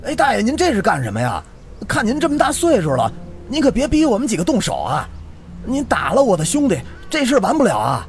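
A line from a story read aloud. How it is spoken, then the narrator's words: Shout. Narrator (Chinese): 冲着大爷喊道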